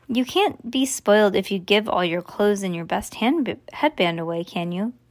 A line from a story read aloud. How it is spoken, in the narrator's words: cried Bean